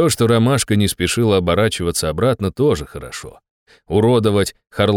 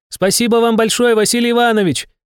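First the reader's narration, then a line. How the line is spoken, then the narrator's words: Shouted. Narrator (Russian): прокричала Стекловата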